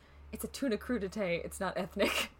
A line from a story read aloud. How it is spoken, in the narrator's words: Kurt very quietly goes